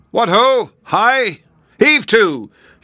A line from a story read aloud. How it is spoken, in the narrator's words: called, shouting through them just like a man